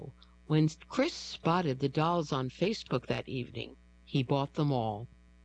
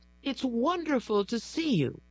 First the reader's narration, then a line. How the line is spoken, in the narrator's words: exclaimed